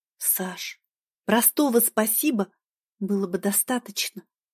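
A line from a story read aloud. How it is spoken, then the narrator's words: Reproachful whisper. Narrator (Russian): с укором шепнула я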